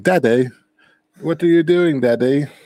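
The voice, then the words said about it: Put-on British toddler voice. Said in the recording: “He's gonna turn sort of British ... why does your kid have a British accent?”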